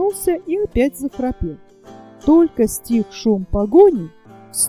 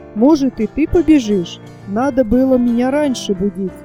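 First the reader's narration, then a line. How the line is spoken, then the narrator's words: Grumbling. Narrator (Russian): заворчал Чинчир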